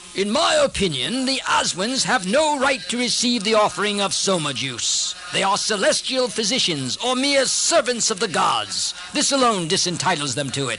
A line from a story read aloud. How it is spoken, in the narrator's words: the chief god, Indra, indignantly said